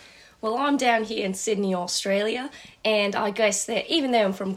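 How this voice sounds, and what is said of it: Usual voice. Nothing is said of it.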